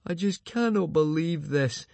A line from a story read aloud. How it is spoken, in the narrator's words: moaned Fishlegs, shivering violently